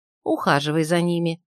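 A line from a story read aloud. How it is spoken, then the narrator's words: Plain. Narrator (Russian): сказала ей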